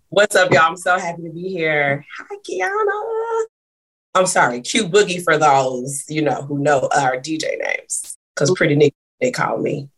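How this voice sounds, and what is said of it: Scratchy, hoarse voice. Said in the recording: “excuse my voice ... screaming like a maniac. And so my voice is a little scratchy”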